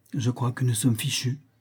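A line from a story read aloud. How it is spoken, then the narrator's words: Frightened murmur. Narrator (French): murmura-t-il en pâlissant légèrement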